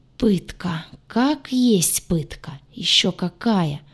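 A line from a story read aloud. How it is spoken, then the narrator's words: Groaned. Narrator (Russian): простонала я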